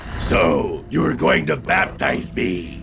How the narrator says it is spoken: he screamed in a horrible, guttural voice

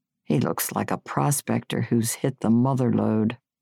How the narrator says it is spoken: Your father said under his breath

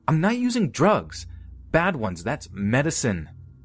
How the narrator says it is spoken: blurting out

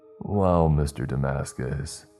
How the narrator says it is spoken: he said, his voice almost inflectionless

